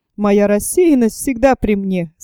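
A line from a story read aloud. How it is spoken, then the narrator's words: Laughing remark. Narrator (Russian): смеясь заметил Паганель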